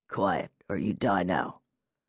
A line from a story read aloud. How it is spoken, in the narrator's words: a hoarse voice muttered in her ear